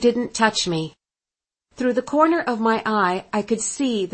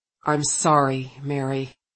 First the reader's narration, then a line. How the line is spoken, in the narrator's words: he said softly